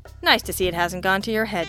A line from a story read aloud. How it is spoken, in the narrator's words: Jack snorted